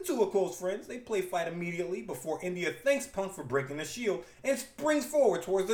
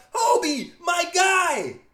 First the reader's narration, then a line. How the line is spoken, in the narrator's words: India shouts